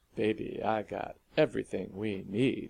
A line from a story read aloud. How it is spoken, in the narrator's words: he answered suavely